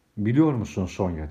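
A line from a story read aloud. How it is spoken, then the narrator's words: Plain. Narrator (Turkish): dedi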